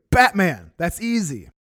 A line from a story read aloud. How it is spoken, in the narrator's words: Bledsoe shouted back immediately